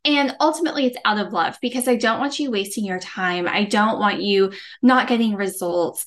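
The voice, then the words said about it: Gentle Texas accent. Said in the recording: “I may have a sweet Texas accent. I may speak gently”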